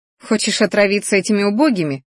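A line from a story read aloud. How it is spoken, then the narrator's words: Scoffing snort. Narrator (Russian): хмыкнула я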